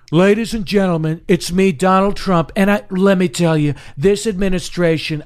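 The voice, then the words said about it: Donald Trump impression without New York accent. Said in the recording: “exaggerated Trump? ... He gets the tone right, gestures, facial expressions, everything. ... he doesn't even do a New York accent ... he never even does the added New York accent. He doesn't add any of that.”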